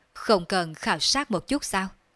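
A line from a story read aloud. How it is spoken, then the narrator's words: Plain. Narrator (Vietnamese): Đường Phong hỏi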